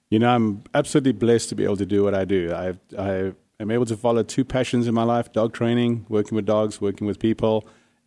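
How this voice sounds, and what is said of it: South African accent. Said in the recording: “this accent I'm hearing ... it's from South Africa”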